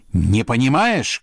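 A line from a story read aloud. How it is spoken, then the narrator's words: Shouting. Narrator (Russian): кричал князь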